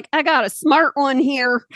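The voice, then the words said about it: Put-on Southern accent. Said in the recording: “Why would you go Southern accent?”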